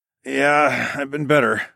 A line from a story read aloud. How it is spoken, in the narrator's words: I grunted